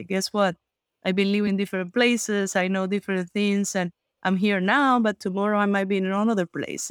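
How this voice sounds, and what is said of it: Non-native accent in English. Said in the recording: “I don't want people to realize with my accent that I'm from here ... your English is very good, but you only learned it in 2013 as an adult”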